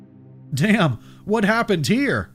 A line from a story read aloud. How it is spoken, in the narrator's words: Martin exclaimed